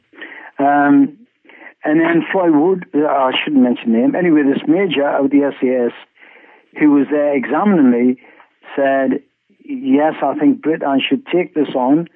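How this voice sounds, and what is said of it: Speaks with a noticeable accent. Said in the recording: “I hope your audience can understand this accent of mine.”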